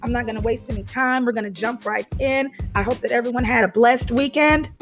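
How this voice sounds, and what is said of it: Overused voice, sounds different than usual. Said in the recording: “My voice is going to be a little bit different than it normally is. I overutilized it over the weekend”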